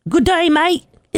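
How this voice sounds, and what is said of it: Put-on Australian accent, dog voice. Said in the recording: “Is that your Australian accent? ... My Australian dog voice with the shrimp on the barbie.”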